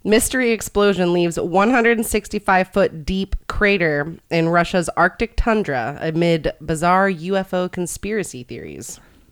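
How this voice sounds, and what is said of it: Mock male newscaster voice. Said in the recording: “In my man news voice?”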